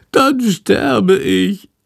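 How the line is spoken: Wailing. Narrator (German): jammert Shandor

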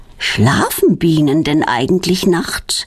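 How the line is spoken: Plain question. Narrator (German): fragt Claudia

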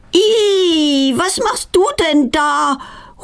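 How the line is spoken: Horrified cry. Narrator (German): ruft sie entsetzt

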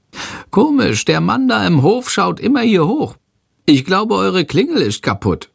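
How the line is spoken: Calling out. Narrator (German): ruft Schandor

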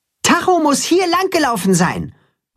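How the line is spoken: Calling toward pasture. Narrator (German): ruft er Richtung Weide

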